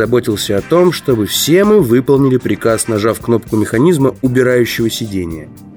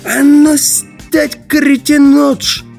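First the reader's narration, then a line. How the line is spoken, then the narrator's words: Roar. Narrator (Russian): он взревел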